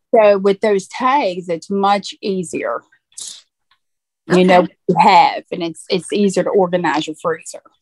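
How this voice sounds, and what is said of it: Southern US accent. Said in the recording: “you haven't lost your Southern accent.”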